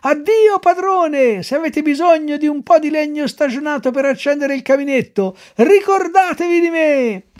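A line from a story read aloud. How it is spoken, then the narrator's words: Shouting louder. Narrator (Italian): urlava più forte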